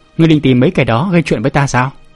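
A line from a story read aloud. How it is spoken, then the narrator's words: Scornful smile. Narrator (Vietnamese): Biện bất nghi cười nhạt nói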